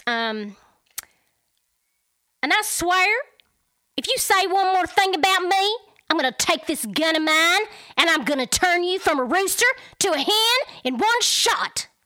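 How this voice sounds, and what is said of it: Put-on Texas country accent. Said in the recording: “that was just another Texas country, not Texas, I guess, country, whatever, mix”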